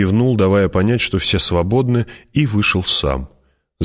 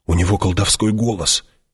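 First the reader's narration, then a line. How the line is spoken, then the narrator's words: Hoarse mutter. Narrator (Russian): сипло пробормотала она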